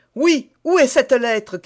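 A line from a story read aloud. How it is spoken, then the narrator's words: Shouting. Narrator (French): cria D'Artagnan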